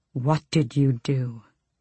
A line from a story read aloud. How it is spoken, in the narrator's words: He breathed